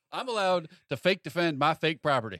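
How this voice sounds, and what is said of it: Put-on Southern US accent. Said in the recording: “why are you doing the South voice? We're in California.”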